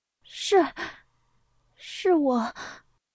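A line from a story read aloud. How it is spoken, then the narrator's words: Frightened, grieving stammer. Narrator (Chinese): 本就悲痛到有些恍惚的李彤被他吓到，结结巴巴的说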